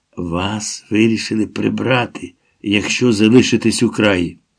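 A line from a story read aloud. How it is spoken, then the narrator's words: Whisper close to ear. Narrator (Ukrainian): зашепотів майже в саме вухо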